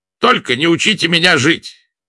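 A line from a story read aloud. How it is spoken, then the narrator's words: Sharp retort. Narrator (Russian): резко ответил Владимир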